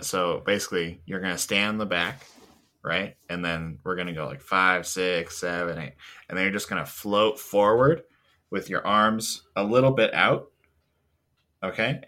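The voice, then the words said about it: Impression of a dance choreographer. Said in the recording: “my impression of the Babadook's dance choreographer”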